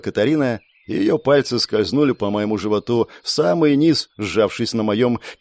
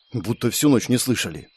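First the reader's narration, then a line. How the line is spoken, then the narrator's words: Whisper. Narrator (Russian): прошептала Катарина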